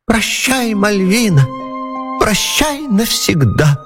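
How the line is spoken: Whiny squeak, little man. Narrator (Russian): Плаксивым голосом пропищал человечек

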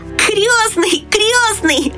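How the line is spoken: Shouted. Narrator (Russian): закричал он

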